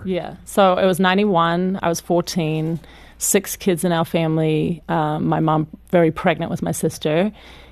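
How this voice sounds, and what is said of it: Australian accent. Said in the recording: “coming out of Australia, which, of course, everybody loves your accent”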